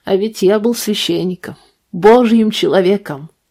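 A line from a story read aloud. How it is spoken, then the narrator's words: Laughing. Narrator (Russian): он рассмеялся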